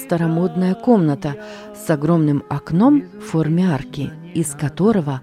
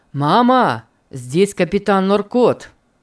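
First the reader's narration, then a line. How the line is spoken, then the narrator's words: Said loudly. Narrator (Russian): сказал Питер громко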